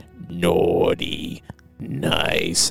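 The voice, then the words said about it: Terrifying demon monster voice. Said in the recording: “talks like this the entire time ... do that voice ... terrifying”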